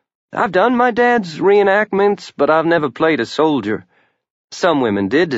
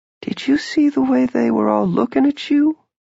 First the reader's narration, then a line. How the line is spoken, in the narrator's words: She whispered to him